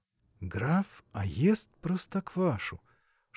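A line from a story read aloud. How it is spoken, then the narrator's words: Hateful whisper. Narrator (Russian): шептал Адуев с ненавистью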